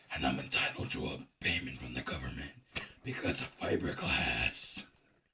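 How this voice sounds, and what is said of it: Raspy, sick-sounding smoker voice. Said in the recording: “This sounds like I'm sick. This sounds like I'm a smoker. Like I've been smoking my whole life. And I want to be evil... I guess I don't have a scary voice.”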